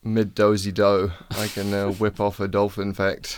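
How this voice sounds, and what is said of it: New Zealand accent impression. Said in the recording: “that's a good impression of New Zealand”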